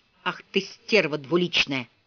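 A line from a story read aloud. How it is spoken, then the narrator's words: Breathless pained wheeze. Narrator (Russian): Ричард, который, хватая ртом воздух, корчился на земле, сумел вдохнуть достаточно, чтобы прохрипеть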